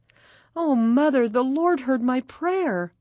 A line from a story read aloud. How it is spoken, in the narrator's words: Maggie exclaimed